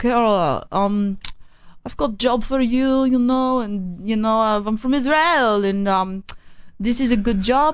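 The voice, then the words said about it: Inconsistent attempted Israeli accent. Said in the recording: “I'm trying to pinpoint the accent, but you're all over the map... I'm all over the place, but I don't know my Israel accent yet. I got to get it down.”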